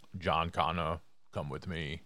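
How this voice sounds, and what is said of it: Poor Terminator movie impression. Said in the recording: “That was horrible. ... I'm not a good impersonator. ... That was really bad.”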